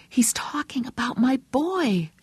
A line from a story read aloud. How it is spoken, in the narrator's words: she whispered